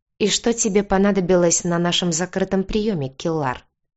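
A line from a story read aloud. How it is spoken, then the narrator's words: Cold question. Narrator (Russian): холодно спросил глава рыжих котов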